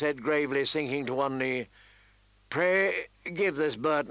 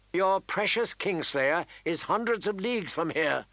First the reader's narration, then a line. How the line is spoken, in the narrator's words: snapped Lysa Aaron